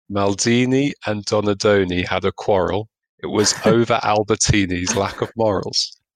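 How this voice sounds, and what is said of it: Italian-Scottish accent, spoken slowly. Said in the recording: “sexy Italian-Scottish hybrid accent ... say the following very slowly”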